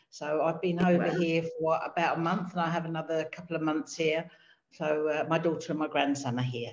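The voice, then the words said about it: British accent. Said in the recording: “as you can probably tell by the accent, I'm the other side of the pond from you. I'm based in the UK”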